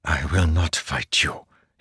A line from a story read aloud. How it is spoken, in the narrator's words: he whispered